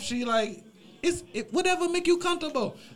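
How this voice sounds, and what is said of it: Put-on accent, admittedly inaccurate. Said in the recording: “I know the accent is not right.”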